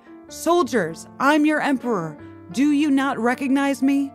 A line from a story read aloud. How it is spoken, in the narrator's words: He shouted